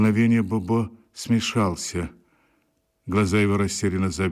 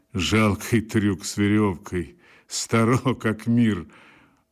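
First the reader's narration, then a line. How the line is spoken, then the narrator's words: Laughing. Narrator (Russian): он рассмеялся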